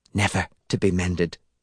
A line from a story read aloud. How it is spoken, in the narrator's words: she whispered